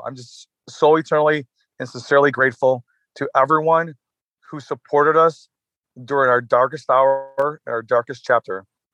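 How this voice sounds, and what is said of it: Emotional, crackling voice. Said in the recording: “my voice is crackling right now”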